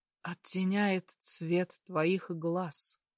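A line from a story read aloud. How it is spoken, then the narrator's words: Hoarse. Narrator (Russian): проговаривает хрипло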